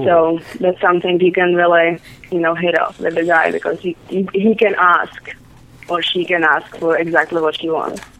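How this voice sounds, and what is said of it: Czech accent in English. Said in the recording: “I'm hearing a little bit of an accent... I'm from Czech Republic... What a sexy accent.”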